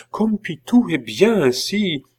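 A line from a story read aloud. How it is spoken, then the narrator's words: Exclamation. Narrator (French): s'écria Catherine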